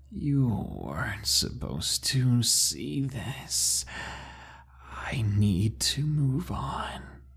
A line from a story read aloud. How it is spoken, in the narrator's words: spoke in a deep, raspy voice that changed pitch as he talked, almost like it was going through rapid changes, said